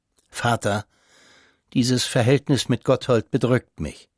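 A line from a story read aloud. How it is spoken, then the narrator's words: Quiet. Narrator (German): sagte der Konsul leise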